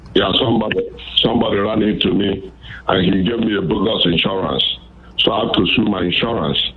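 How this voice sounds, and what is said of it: Nigerian accent. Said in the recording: “I love that accent ... I'm from Nigeria, West Africa ... I sometimes can't tag the accents from which African country”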